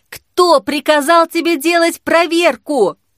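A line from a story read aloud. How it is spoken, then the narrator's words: Loud shout. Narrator (Russian): крикнула уже громко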